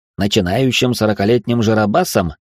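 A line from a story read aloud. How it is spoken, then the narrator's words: Sharp retort. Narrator (Russian): резко кинул Алекс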